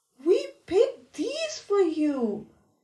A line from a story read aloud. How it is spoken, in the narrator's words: explained Flopsy